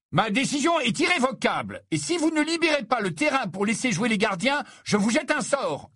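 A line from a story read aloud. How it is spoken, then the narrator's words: Shouted. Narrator (French): hurla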